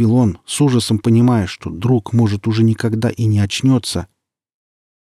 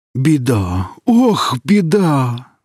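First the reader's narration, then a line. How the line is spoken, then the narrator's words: Exclamation. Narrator (Russian): воскликнул Велес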